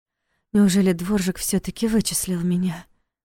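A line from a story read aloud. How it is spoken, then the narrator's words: Involuntary breathless exclamation. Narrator (Russian): Выдохнула она, прежде чем успела себя остановить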